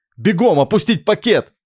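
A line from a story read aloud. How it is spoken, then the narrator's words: Shout. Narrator (Russian): крикнул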